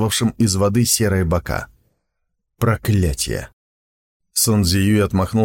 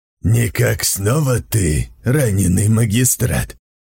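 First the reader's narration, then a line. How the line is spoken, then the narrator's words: Deep voice. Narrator (Russian): произнесло видение глубоким голосом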